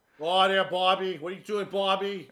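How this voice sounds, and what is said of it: Put-on Boston accent. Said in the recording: “I still vote Boston as the worst accent every time. ... That one's pretty bad. Especially Kevin Costner does it.”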